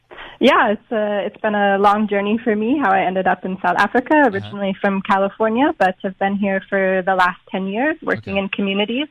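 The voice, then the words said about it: Foreign, non-local accent. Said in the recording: “not from here ... at least from your accent alone”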